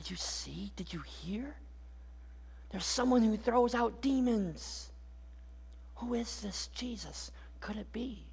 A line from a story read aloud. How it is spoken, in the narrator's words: those whispers simply keep growing louder and louder